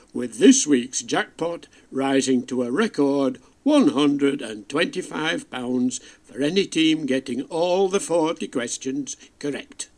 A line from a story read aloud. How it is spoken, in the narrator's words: finishing loudly